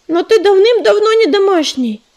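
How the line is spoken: Protesting exclamation. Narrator (Russian): протестующе воскликнула Листвечка

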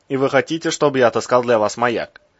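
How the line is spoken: Skeptical snort. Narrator (Russian): Березов хмыкнул

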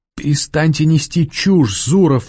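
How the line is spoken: Sob. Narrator (Russian): всхлипнула Варя

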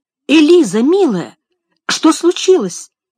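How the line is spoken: Exclaiming. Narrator (Russian): воскликнула миссис Шелби

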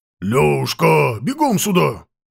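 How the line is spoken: Thunderous bark. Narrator (Russian): гаркнул громовым голосом батюшка

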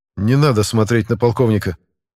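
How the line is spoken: Calm voice. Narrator (Russian): также спокойным голосом сказал я

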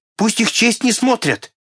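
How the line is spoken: Muffled shouting behind hands. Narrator (Russian): Консель кричал, закрыв себе лицо руками

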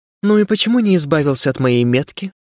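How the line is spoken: Unexpectedly calm question. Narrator (Russian): неожиданно спокойно спросила она

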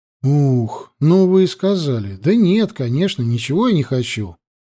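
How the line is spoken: Sighing. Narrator (Russian): вздохнул Лёшка

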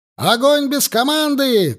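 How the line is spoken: Shout. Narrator (Russian): крикнул Егоров

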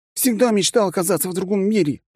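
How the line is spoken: Exclaiming. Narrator (Russian): воскликнул он

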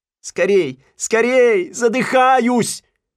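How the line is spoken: Breathless shouting. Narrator (Russian): кричал Симпкинс

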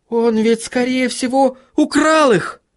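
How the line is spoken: Shout. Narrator (Russian): закричала Сахариса

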